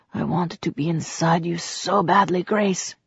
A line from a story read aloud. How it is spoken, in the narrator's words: whispered